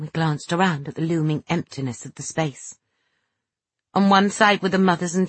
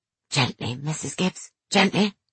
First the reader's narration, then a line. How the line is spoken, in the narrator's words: B hoarsely whispering